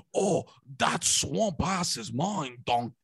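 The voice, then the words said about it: Poor Shrek cartoon ogre impression. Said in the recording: “I couldn't do a Shrek impression, huh? ... No, not at all. ... No, I can't do it at all.”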